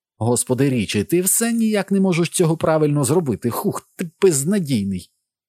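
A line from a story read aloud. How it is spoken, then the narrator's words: Laughing. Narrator (Ukrainian): насправді вона сміялася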